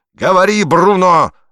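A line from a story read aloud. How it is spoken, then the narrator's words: Enraged yelling. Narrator (Russian): орал, лицо его побагровело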